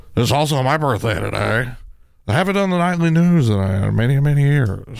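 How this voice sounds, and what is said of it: Imitates a TV news anchor's voice. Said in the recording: “do an impersonation of ... That's Tom Brokaw.”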